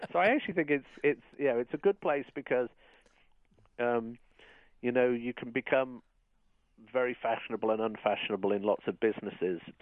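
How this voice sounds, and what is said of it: Speaks with a noticeable accent. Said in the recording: “The one with the accent”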